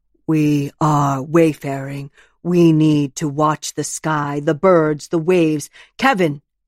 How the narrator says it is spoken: she shouts

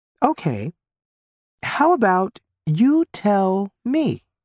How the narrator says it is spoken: say slowly

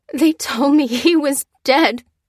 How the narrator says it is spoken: sobbed Lucy

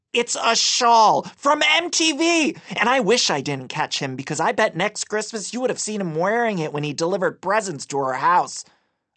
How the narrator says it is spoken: I playfully, albeit also angrily, added

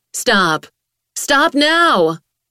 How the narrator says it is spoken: she shouted loud through her suit speakers

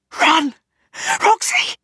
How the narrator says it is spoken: she says, not more than a whisper

